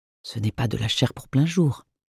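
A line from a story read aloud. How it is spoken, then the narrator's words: Whispered. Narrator (French): me chuchote Marthe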